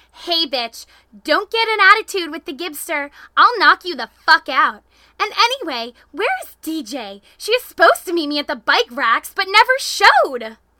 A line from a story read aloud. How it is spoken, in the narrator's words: Kimmy screamed